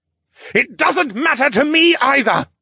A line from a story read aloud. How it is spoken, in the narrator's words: Lucien roared